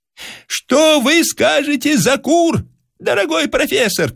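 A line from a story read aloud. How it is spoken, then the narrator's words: Shouting through cupped hands. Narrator (Russian): крикнул Бронский, сложив руки щитком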